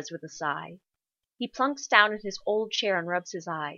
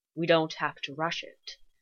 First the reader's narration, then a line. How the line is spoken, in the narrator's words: Sherlock tells him quietly